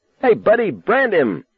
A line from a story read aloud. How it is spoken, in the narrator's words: Don Vandenberg yelled happily